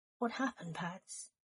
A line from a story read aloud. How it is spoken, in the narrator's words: Remus asked, leaning in to whisper to him